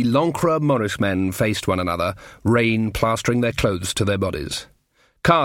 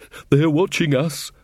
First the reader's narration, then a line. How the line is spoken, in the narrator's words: panted Taylor